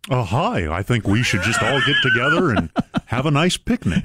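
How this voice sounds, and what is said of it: Cartoon bear-like imitated voice. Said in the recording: “do your Governor Bennett voice ... He does sound like a cartoon bear.”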